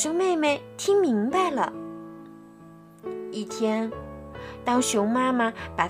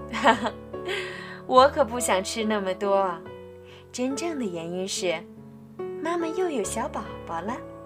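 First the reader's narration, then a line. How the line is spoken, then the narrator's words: Laughing out loud. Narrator (Chinese): 熊妈妈忍不住笑出声来，说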